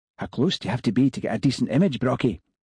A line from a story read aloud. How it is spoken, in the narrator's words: he whispered to the man beside him